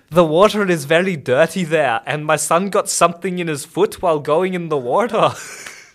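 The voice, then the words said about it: Poor put-on Scottish accent, rolled R's. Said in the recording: “can you read this review in a Scottish accent? ... I am terrible at accents ... that was terrible ... do it in the Scottish accent again ... You're rolling the R's too much.”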